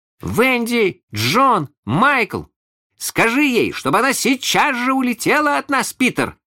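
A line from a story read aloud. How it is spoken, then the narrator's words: Three voices shouting together. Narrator (Russian): закричали все трое разом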